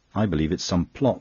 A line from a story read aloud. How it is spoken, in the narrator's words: snapped Verloyne